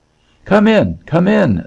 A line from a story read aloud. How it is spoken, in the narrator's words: the Kootenai cried to him